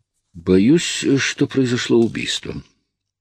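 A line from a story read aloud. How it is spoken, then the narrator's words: Calm reply. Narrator (Russian): спокойно ответил я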